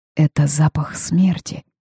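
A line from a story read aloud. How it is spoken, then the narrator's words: Whispered. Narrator (Russian): шепнула я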